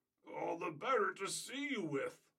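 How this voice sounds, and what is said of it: Squeaky wolf voice. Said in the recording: “in a squeaky voice. ... squeaks the wolf.”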